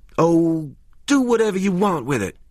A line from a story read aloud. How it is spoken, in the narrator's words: she shouted at him